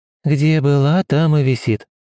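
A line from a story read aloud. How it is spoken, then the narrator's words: Sighing. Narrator (Russian): вздохнула мать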